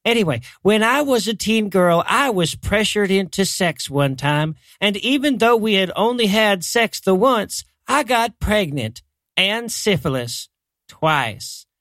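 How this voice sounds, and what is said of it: Man doing a female character voice. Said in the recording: “I'm doing my lady voice.”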